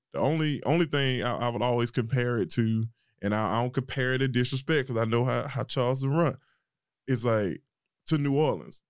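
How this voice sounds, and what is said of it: Southern country accent with twang. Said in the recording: “It's country. You got a little twang in there. You know, my R's are a little rougher.”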